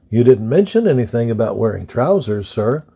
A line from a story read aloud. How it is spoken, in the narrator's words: Cadet Eisenhower replied gently